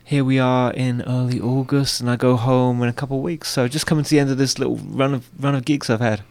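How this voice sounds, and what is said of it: English accent. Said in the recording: “with your accent, people know that you're not Norwegian ... I'm English. Born just outside London”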